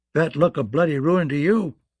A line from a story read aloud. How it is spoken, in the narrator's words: Crabb spat